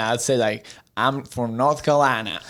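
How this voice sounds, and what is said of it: Put-on drawn-out Southern US accent. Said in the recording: “say I'm from Tennessee in a Southern accent ... not bad, actually ... You push all of your words together and draw them out at the same time.”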